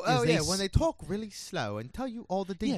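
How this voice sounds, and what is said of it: Bad imitation of English accent. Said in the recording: “that bad English impression”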